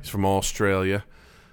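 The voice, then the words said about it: Weak put-on Australian accent. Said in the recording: “That was a weak attempt at doing an Australian accent. I'm not very good at it.”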